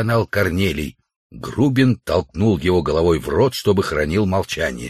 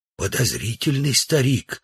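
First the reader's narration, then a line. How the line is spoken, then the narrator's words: Whispered. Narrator (Russian): сказал Удалов шепотом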